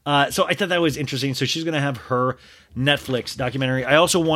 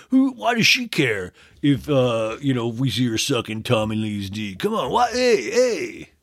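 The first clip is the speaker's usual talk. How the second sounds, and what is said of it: Stereotypical average guy voice. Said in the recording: “that's my impression of a standard male”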